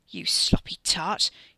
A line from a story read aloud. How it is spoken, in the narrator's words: he snarled at his cousin